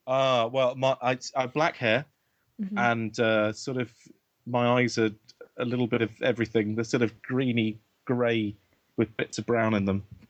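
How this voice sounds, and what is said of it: British accent. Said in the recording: “I'm based in the UK, and in case the accent didn't give that away”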